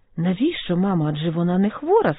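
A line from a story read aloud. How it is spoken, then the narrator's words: Plain. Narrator (Ukrainian): сказала Саша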